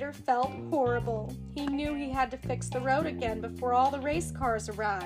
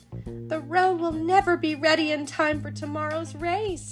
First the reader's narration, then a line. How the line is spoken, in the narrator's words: cried Sally